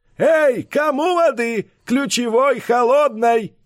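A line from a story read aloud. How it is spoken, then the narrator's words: Loud yell across street. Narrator (Russian): снова завопил на всю улицу дядюшка Буль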